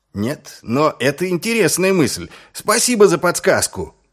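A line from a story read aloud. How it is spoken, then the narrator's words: Shouted after someone. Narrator (Russian): крикнул вслед Ваймс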